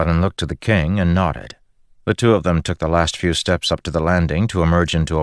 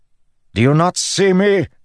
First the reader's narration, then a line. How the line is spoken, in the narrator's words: Elokar bellowed